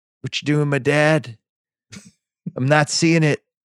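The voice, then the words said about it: Imitates another person's voice. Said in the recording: “That's really good. I don't know that there's many people that have ever impersonated him, but that's very good.”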